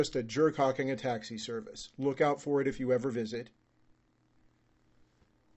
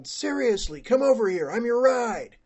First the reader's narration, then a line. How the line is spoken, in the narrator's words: the guy yelled